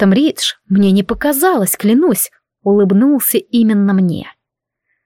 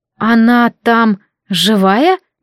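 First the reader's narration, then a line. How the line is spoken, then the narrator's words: Strained forced words. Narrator (Russian): наконец смогла выдавить я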